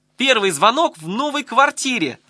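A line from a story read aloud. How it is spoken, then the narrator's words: Yelled. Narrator (Russian): завопила Маня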